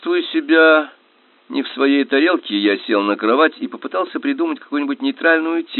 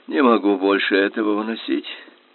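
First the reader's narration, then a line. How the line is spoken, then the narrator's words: Mutter. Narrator (Russian): пробормотал Банни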